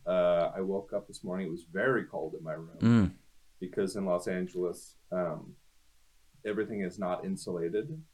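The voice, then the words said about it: Nasal, congested voice. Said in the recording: “I sound very nasally.”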